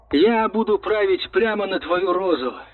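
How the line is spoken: Laughing. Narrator (Russian): засмеялся Тимур

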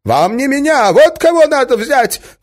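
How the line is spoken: Shout. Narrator (Russian): крикнул он

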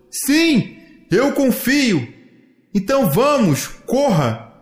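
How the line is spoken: Son shouting. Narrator (Portuguese): gritou o filho

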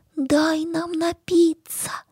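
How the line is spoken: Barely audible rustling. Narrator (Russian): чуть слышно шуршат

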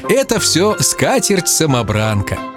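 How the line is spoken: Laughing grandmother. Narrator (Russian): бабуля, смеясь, говорила

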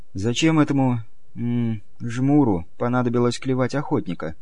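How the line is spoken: Quiet question. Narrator (Russian): спросила тихонько Надежда

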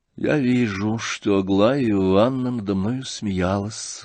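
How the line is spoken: Sad reply. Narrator (Russian): грустно ответил князь

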